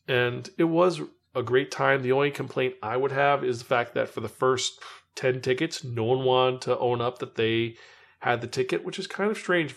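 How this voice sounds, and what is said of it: Slightly hoarse voice. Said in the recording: “Voice got a little bit hoarse. You can hear my voice is a little hoarse still from the weekend.”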